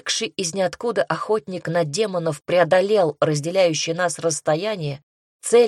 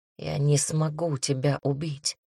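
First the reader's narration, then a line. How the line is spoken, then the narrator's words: Whisper. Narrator (Russian): прошептал друг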